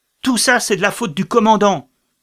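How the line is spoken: Furious shout. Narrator (French): cria l'officier hors de lui

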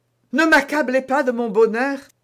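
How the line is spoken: Impassioned exclamation. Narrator (French): s'écria D'Artagnan

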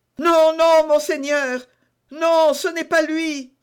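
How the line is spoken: Exclaimed. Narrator (French): s'écria Bonacieux

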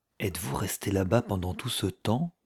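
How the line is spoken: Almost whispered question. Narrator (French): me demanda-t-elle presque à voix basse

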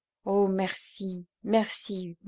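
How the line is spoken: Stammered. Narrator (French): balbutia-t-elle

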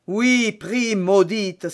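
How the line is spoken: Baron's angry exclamation. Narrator (French): s'écria le baron

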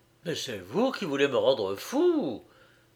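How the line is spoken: Frantic exclamation. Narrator (French): s'écria Giovanni hors de lui

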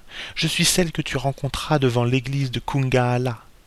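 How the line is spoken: Murmured. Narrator (French): murmurait la femme

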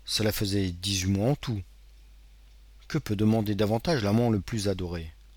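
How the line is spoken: Murmur. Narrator (French): il murmura les paroles du poète anglais

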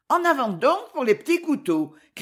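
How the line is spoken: Cheerful shout. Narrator (French): cria Valentine, persuadée au fond de l'âme qu'amuser un peu ces pauvres gens en deuil serait faire une excellente action

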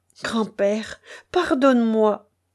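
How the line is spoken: Moaning plea. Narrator (French): gémit Lanka

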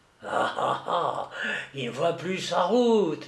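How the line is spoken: Murmured with sneering laugh. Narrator (French): murmura-t-elle en ricanant

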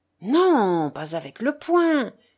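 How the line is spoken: Exclaiming. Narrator (French): s'exclama Alyosha

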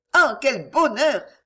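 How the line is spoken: Joyful exclamation. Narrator (French): s'écria Cécilia dans un sincère élan de joie

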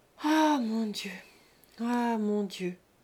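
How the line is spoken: Repeated with heavier sighs. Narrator (French): répéta Rose en soupirant plus fort

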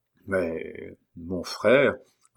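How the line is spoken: Choked, hesitant voice. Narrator (French): hasarda Dubouchage d'une voix étranglée

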